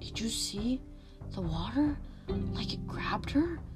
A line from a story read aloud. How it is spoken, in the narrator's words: Some of the kids were whispering